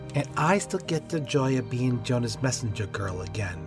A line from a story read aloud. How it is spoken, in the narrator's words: Maggie grumbled